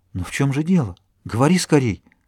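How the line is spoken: Trembling female whisper. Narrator (Russian): Она начала дрожать и прошептала

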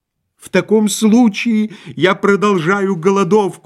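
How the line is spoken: Miserable shouting. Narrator (Russian): закричал несчастный муж

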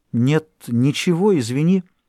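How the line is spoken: Embarrassed babbling. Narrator (Russian): Тот сконфуженный пролепетал

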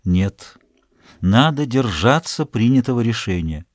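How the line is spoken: Gentle refusal. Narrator (Russian): Он мягко отказал ей

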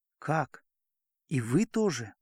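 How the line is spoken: Quiet, terrified. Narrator (Russian): Тихо, с выражением безумного страха в глазах, произнес, наконец, Назанский

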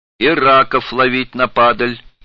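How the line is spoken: Shouting. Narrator (Russian): закричал другой

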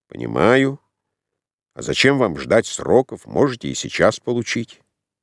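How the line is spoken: Gloomy grumble. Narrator (Russian): Мрачный брат Рвацкого буркнул

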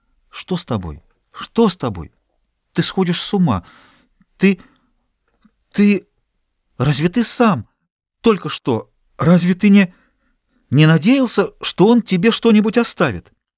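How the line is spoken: Agitated babbling. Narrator (Russian): она пролепетала взволнованным голосом

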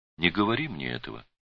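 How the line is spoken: Sad girl. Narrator (Russian): печально сказала девушка

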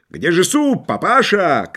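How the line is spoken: Shouting with mouth full. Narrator (Russian): кричал Гейнрих с набитым ртом

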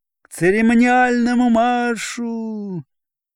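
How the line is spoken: Faltering, sheepish trailing shout. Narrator (Russian): отставший ротный крикнул заплетающимся и стыдливым голосом, не договаривая команды

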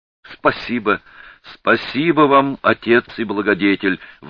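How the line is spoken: Eager exclamation. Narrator (Russian): воскликнул Мацко, который только этого и ждал

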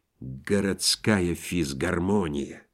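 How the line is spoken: Janitor-like voice. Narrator (Russian): Александр Ибн Иванович сказал дворницким голосом

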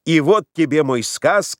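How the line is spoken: Old man shouting. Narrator (Russian): кричал пожилой

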